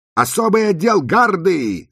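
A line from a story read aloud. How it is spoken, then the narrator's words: Shouted. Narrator (Russian): закричала Розали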